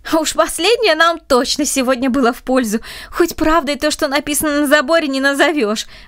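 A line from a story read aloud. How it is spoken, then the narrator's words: Laughing. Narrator (Russian): рассмеялся Андрей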